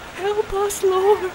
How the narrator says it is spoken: Mary whimpered

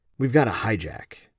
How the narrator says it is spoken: Christian quietly said

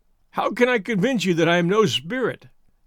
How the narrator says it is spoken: he asked, with a laugh

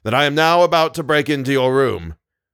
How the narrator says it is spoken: he cried loudly at the keyhole

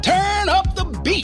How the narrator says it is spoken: I called out to Alfie

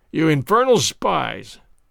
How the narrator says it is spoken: the man cried

